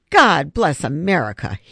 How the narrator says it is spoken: he roared

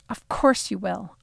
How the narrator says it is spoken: I hissed at Siri under my breath

